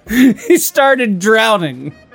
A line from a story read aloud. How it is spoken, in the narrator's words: shouted Kylo